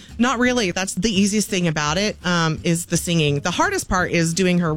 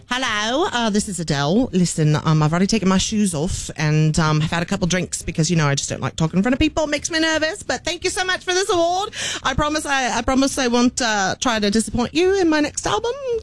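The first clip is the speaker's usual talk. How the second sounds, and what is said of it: Attempted thick Cockney accent. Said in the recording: “her real thick Cockney accent. I'm terrible at it.”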